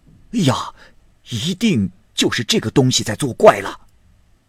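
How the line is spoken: Clamoring crowd. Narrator (Chinese): 众人嚷嚷着说

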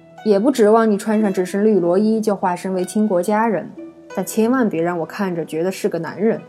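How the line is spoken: Grumbling. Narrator (Chinese): 嘟囔道

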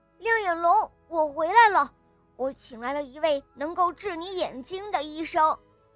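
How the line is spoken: Loud. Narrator (Chinese): 他大声地说

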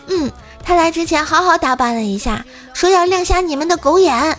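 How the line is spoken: Loud. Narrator (Chinese): 冰棍嫂就大声地说

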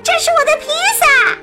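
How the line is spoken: Little girl screaming. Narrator (Chinese): 一个小女孩尖叫起来

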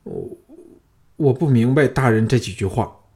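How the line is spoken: Trembling, frightened. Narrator (Chinese): 五福脸上血色尽退，颤声说

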